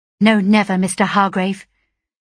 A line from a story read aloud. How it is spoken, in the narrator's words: exclaimed I, quickly